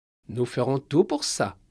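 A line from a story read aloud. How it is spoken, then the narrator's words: Plain. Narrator (French): dit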